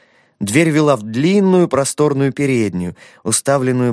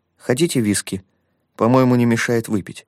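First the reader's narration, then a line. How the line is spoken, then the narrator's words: Calm. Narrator (Russian): Айсидор Смайс спокойно произнес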